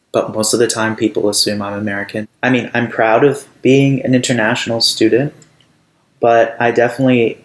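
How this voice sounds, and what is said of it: Mid-Atlantic accent, neither British nor American. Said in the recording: “My accent used to be more, the way I describe it is middle of the Atlantic. So it was neither British nor American.”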